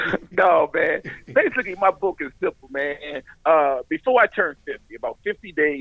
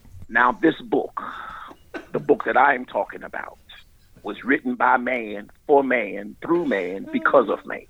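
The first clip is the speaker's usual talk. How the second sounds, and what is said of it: Old-school preacher voice. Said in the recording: “Let me get my old school preacher voice.”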